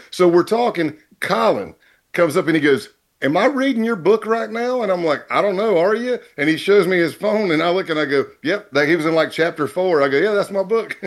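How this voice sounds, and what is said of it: Southern American accent. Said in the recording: “He's got this Southern accent ... dude, that's me”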